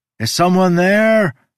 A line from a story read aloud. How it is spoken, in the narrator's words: I shouted